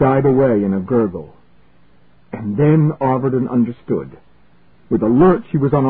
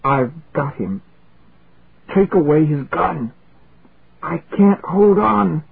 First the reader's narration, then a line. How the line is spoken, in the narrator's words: Schwartz muttered gaspingly